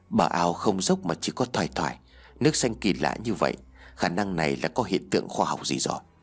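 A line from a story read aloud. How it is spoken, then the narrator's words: Muttering. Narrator (Vietnamese): nó lẩm bẩm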